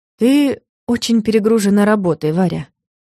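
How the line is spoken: Even voice. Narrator (Russian): ровным голосом сказал он

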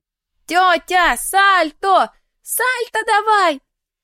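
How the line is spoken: Children shouting from afar. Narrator (Russian): кричали с берега дети

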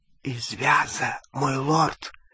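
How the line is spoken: Whisper. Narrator (Russian): прошептал Малфой

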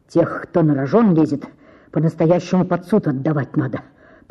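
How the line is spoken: Muttering. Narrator (Russian): пробормотал Коростелев

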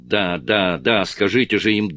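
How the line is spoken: Irritated. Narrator (Russian): Президент раздраженно сказал

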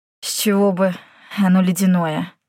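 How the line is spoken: Hoarse. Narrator (Russian): сипло отозвался Йен

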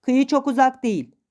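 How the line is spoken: Shouted. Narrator (Turkish): diye bağırdım

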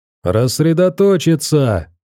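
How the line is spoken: Shouting. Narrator (Russian): закричал один из охотников

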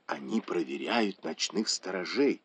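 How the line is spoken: Whispered. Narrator (Russian): шепотом сказала Цинь Вэнь

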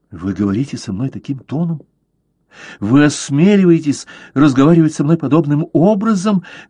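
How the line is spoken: Passionate exclamation. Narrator (Russian): воскликнула она, поражая его своей страстностью

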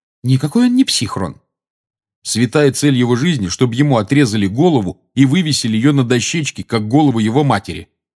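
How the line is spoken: Irritated speech. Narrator (Russian): раздраженно сказал Рон

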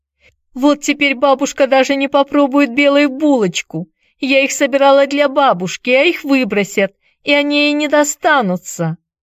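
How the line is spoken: Bitter sobbing. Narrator (Russian): Она горько плакала и, всхлипывая, приговаривала

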